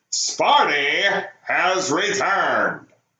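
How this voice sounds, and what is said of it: Imitates another person's voice. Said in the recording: “my best John McLaughlin impersonation”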